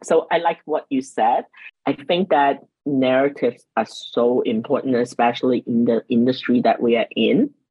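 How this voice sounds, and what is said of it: Non-native English accent. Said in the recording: “I didn't come to the state until I'm like 12. And I didn't speak that much English ... I am still very cognizant of my accent.”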